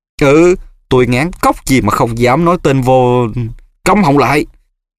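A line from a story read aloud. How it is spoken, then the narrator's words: Shrieked. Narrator (Vietnamese): Mụ Bellatrix thét lên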